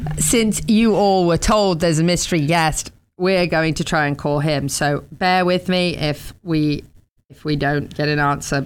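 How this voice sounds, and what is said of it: English accent. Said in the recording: “I think you're from Southern England now. Because you say y'all with an English accent.”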